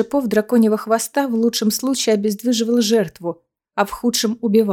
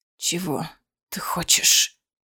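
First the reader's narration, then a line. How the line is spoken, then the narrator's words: Hoarse question. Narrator (Russian): хрипло спросил он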